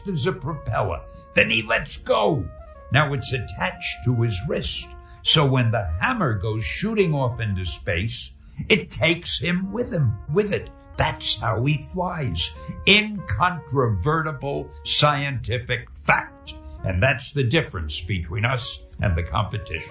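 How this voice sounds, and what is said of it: Poor Stan Lee impression. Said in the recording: “probably a terrible impression of him”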